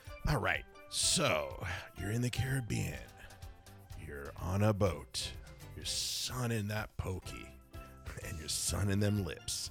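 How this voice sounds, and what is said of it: Sexy radio announcer voice. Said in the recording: “Because I got the sexy porn radio voice.”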